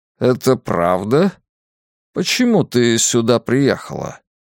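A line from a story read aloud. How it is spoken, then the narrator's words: Slow weary speech. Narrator (Russian): Медленно, устало, тётя Хэрриет проговорила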